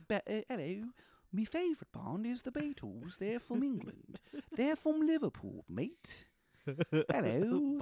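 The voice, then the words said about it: Exaggerated, shifting fake British accent. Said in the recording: “My accent comes from across the pond. ... that morphed into several different regions that don't exist. ... An outrageous British accent”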